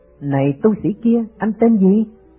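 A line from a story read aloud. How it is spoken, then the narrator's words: Giggling. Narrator (Vietnamese): Các cô cười khúc khích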